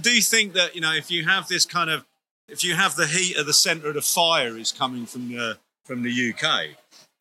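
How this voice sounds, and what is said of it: London accent. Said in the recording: “my accent gives it away, but I'm a Londoner”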